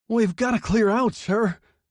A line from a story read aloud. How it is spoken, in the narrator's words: chattered hysterically